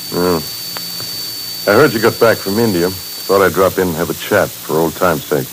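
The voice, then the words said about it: Tired-sounding voice. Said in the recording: “you sound tired ... you're tired, which tells me you've been working hard”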